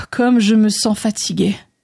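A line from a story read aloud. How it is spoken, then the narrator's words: Sighing. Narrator (French): soupira André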